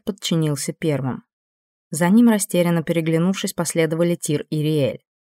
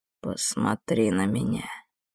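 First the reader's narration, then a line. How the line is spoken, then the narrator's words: Quiet command. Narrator (Russian): тихо приказал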